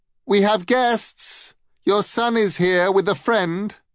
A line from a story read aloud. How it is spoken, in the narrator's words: She called out